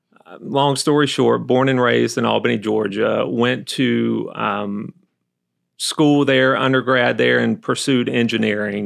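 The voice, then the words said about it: Slight slow Southern US accent. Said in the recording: “you get a little bit of Southern accent. ... Yes, I get told that a lot. Uh-huh. A little slow”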